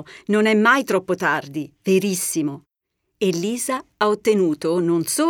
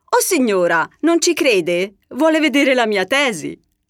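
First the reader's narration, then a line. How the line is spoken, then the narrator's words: Laughing reply. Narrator (Italian): Lisa, ridendo, le risponde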